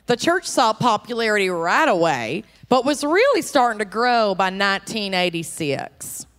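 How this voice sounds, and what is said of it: Put-on Dallas Texan accent. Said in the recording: “I feel so comfortable in this accent ... I'm like kind of nailing it ... they're just going to assume I'm from Dallas”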